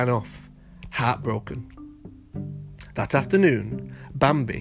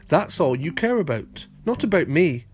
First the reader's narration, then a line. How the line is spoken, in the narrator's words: Bambi cried